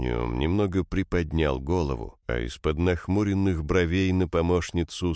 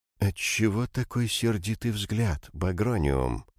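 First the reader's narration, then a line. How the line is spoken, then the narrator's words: Sighing, disappointed question. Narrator (Russian): Создатель глубоко вздохнул и голосом, полным разочарования, спросил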